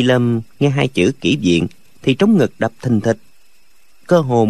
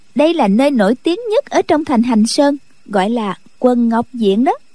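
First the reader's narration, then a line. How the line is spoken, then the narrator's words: Smiling. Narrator (Vietnamese): Khúc Phi Yên mỉm cười nói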